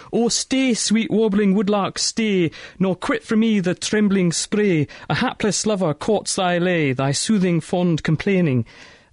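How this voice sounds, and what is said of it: Poor put-on Scottish accent. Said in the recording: “my terrible attempt at Scottish accent”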